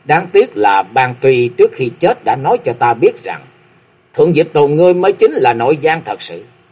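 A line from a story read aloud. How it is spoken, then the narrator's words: Laughing loudly. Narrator (Vietnamese): Nam Cung Lượng cười lớn một tràng rồi nói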